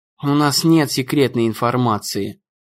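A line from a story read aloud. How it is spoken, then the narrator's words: Muttering. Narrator (Russian): пробормотал он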